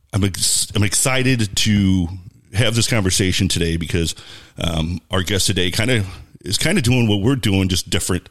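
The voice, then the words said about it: Deep radio announcer voice. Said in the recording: “I love the radio voice, how it just turns on ... it drops like four octaves”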